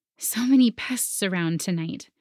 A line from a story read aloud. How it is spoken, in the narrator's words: I murmured